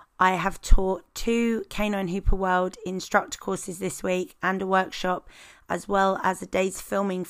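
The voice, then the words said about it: Slightly husky, hoarse voice. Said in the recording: “my voice is a little husky ... my voice is a little bit hoarse”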